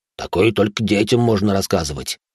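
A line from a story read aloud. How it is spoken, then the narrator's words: Annoyed grumble. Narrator (Russian): с досады, буркнул енот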